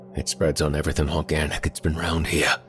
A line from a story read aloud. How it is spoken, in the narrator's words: muttered the medical examiner